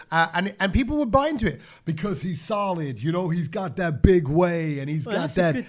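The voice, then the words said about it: Imitates another person's voice. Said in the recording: “That's a good impression, bro... That's actually a really good impression.”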